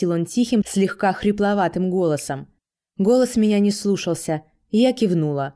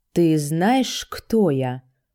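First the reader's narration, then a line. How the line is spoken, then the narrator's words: Growling question. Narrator (Russian): спросил он, и в его голосе прорвалось рычание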